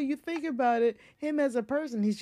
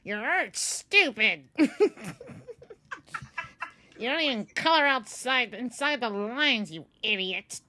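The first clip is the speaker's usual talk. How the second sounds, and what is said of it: Angry Bill Nye impression. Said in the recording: “Now that was a good impression ... he's just an old-ass, angry white dude”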